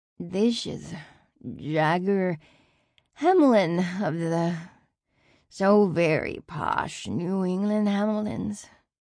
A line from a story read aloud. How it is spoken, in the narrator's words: slurred